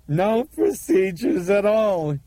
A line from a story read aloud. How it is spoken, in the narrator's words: he screamed joyfully